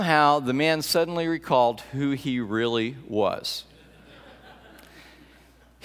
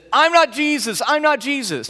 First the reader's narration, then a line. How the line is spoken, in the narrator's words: the man started yelling